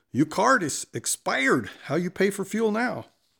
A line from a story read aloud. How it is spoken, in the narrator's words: the driver returns and angrily states